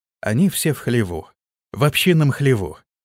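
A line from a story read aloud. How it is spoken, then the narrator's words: Quiet. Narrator (Russian): тихо проговорил разведчик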